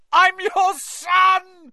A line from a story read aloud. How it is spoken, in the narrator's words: he screamed up at Crouch